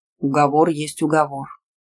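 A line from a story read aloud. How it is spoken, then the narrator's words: Calm. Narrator (Russian): спокойно сказал Иранда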